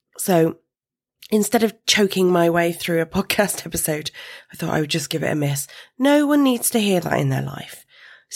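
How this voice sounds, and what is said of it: Groggy, not-quite-right voice. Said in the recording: “you might be able to hear in my voice that I am still recovering ... made me all groggy ... if my voice doesn't sound quite right today”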